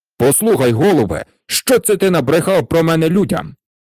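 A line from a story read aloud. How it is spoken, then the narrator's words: Angry outburst, king. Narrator (Ukrainian): Сердито накинувся цар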